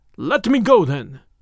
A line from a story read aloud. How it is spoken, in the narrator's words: cried the other